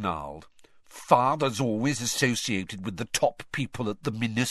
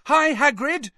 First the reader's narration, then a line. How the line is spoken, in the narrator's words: Harry yelled